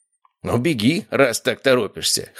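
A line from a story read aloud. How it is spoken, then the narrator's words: Snorting chuckle. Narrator (Russian): хмыкнул Кораблев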